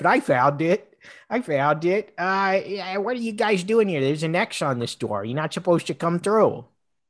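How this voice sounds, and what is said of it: Cartoon character voice impression. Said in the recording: “It's me, Peter Griffin.”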